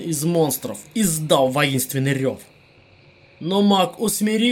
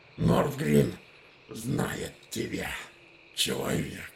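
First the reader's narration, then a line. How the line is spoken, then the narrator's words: Hiss. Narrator (Russian): прошипел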